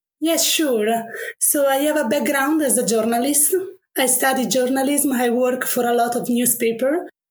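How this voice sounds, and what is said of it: Italian accent. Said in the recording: “sorry for my accent. I'm Italian ... I love your accent.”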